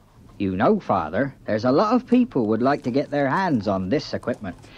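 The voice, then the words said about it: Put-on accent. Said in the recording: “Incidentally, you can drop the accent.”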